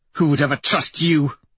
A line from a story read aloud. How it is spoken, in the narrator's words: Thistle snaps